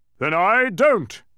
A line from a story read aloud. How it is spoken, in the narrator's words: thundered again